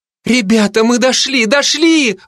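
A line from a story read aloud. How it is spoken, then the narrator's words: Excited exclamation, several women. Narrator (Russian): воскликнули сестры Аверьяновы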